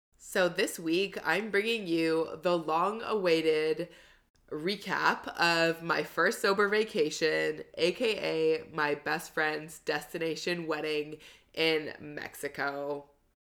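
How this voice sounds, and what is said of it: Slightly congested voice. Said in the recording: “my voice isn't 100% how it normally sounds and if I sound a little congested.”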